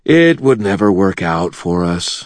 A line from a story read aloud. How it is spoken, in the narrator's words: I said sadly